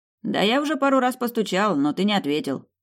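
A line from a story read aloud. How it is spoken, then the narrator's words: Amused snort. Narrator (Russian): хмыкнул друг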